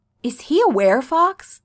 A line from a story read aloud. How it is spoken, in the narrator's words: Scott asks eagerly